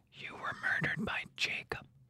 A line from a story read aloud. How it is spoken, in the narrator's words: Catherine whispered to Hugo